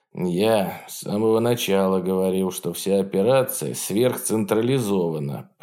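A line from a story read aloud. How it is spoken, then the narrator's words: Grumbled. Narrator (Russian): проворчал Холком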